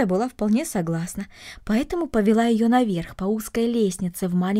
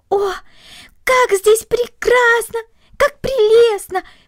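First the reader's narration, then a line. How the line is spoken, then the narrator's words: Delighted exclamation. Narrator (Russian): воскликнула Корнели, полное восхищение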